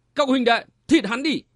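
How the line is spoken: Shout. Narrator (Vietnamese): Một tên quát lên

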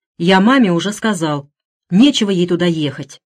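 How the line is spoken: Irritated reply. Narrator (Russian): раздраженно ответил Гарри

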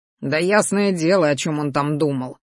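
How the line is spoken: Displeased grumble. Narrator (Russian): недовольно пробурчал Рахтар

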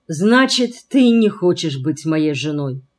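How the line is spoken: Dejected voice. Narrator (Russian): упавшим голосом ответил он

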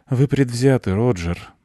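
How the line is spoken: Sighing. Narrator (Russian): вздохнула Катерина

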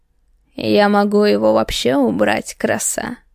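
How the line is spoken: Snort. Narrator (Russian): Хмыкнул

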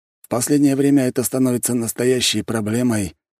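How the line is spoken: Sigh. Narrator (Russian): вздохнул Аксаханов

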